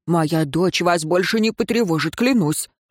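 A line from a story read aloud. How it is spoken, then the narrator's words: Earnest exclamation. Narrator (Russian): воскликнул Дин Роэн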